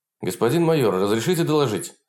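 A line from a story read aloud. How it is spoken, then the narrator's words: Plain. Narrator (Russian): спросил капитан Марита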